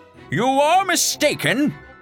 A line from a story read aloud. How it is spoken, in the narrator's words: shouted Don Quixote